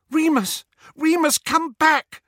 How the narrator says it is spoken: Hermione cried

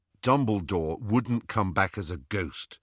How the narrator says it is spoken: said Harry

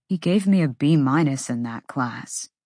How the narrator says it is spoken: Ethan muttered

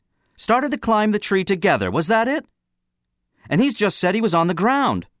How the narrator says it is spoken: the boy on the platform went on harshly

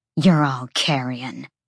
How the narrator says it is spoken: Sabine simmered with rage, but hissed

